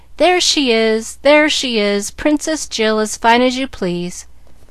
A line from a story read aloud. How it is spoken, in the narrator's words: singing, as they laughed at her astonishment